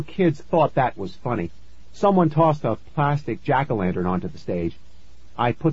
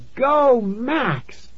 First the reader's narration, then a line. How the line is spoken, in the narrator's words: a girl shouted